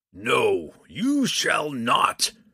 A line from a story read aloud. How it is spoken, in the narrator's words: Kemphana bellowed